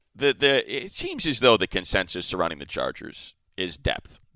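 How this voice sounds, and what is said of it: Radio announcer voice. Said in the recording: “As the radio voice.”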